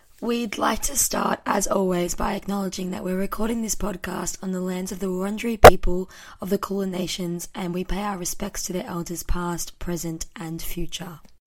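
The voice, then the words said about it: Husky, partly lost voice. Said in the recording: “I've half lost my voice ... it's like a little bit husky ... the husky vibe”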